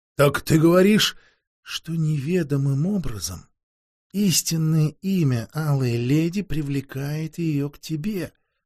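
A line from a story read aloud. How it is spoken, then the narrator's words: Whisper. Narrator (Russian): шепотом проговорил Джованни Фиданца мэтр Бонавентура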